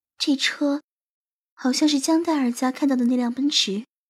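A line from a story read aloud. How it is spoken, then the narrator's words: Whisper. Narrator (Chinese): 许思小声地说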